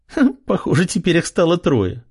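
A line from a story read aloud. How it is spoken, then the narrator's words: Short laugh. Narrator (Russian): хохотнула она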